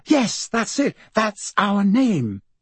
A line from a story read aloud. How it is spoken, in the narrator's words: she would suddenly exclaim